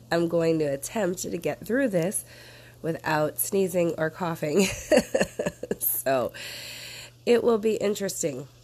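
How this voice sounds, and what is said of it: Sick-sounding voice. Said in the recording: “As you can hear by my voice, I am a little bit under the weather.”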